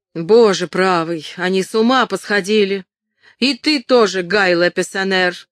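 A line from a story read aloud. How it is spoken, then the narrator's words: Shouted. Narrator (Russian): крикнула она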